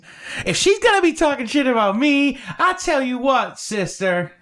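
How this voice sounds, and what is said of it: Put-on southern accent. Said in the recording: “That was a southern accent.”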